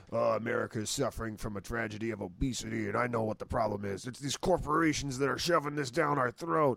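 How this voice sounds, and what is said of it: Imitates another person's voice. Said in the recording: “this is my impression of him”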